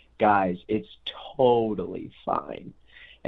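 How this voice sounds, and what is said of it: Calm, reassuring voice. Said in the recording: “in this calm voice”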